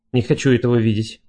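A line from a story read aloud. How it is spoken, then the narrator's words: Mumble. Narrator (Russian): пробормотала Вики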